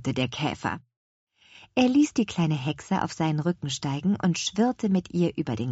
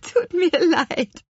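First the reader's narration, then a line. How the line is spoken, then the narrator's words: Laughing witch. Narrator (German): lachte die Apfelhexe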